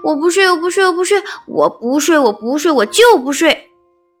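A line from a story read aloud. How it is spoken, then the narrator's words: Whining clamor. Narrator (Chinese): 我 嚷嚷着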